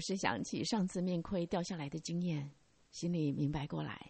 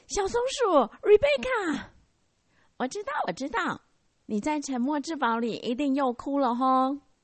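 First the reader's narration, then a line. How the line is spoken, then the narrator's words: Joyful shout. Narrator (Chinese): 他心中一阵大惊喜，大叫着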